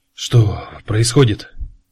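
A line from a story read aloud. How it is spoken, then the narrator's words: Whispered. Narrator (Russian): прошептал Гутцер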